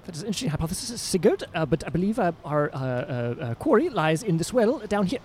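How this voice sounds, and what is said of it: Character voice with put-on accent. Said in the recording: “I'm trying to get return the full accent. It's been a while.”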